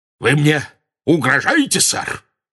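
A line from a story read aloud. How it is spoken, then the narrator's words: Very loud bark. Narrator (Russian): рявкнул он так громко, что несколько прохожих удивленно обернулись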